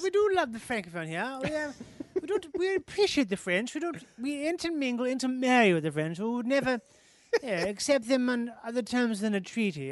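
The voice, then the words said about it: Put-on drunken-sounding posh accent. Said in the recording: “accent is almost an accent that's been birthed of being drunk every day ... you can almost smell the tobacco on that accent”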